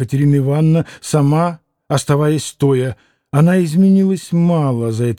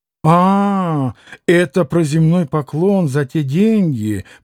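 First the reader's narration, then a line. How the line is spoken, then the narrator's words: Bitter laughing reply. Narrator (Russian): подхватила она, горько рассмеявшись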